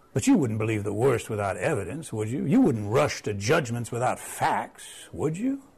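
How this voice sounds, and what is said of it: Creepy put-on Southern accent. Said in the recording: “The Southern accent is making it more creepy”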